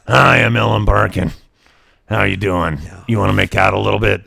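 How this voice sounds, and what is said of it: Rough-talking imitation of an actress. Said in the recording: “With her sideways mouth and her rough talk... my impression of Ellen Barkin... I don't think she talks quite like that”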